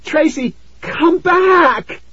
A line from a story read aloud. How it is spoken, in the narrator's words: I screamed